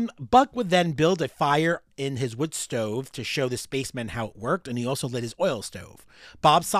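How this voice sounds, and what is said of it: Usual voice. Nothing is said of it.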